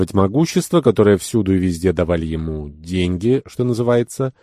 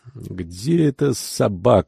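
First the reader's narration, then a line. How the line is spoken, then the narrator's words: Muttered. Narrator (Russian): бормотал он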